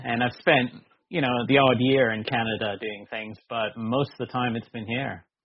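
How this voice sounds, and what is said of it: Canadian accent. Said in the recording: “my accent, living here in the UK hasn't dented my Canadian accent at all ... he does not have a Brit accent”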